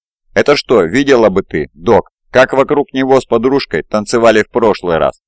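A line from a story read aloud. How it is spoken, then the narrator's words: Guffawing child. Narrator (Russian): захохотал малыш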